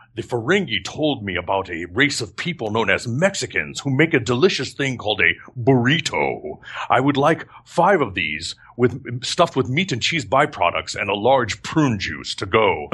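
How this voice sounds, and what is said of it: Imitates Worf's voice, not very well. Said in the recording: “not my best Worf impression. I don't do a good Worf impression”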